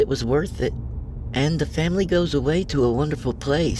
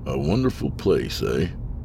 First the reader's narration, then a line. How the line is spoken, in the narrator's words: I muttered, in agitation